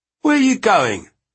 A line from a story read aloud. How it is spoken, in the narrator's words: Sparks snapped